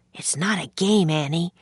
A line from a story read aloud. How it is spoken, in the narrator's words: Jack whispered back